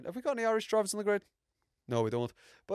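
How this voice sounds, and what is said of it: Put-on Irish accent. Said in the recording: “I'll speak in an Irish accent ... I struggle to do the Irish accent ... I'm gonna continue to talk in a in quite an Irish accent”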